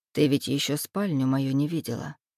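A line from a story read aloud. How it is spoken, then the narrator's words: Casual tone. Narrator (Russian): говорит он обыденным тоном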